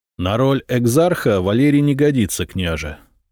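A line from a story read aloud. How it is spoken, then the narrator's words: Plain. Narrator (Russian): сказал Звонимир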